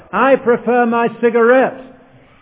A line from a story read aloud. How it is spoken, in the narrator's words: shouted the heckler